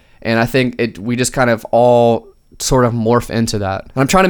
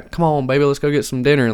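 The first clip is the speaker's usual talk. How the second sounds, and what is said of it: Exaggerated Southern accent. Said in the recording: “this accent where I'm talking super Southern”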